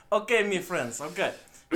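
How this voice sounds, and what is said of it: Weak attempt at Russian accent. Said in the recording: “Do a Russian accent. ... That's not the Russian accent that I was hoping for.”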